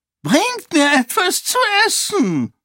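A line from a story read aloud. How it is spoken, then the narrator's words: High-pitched whining. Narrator (German): jammerte eine hohe Stimme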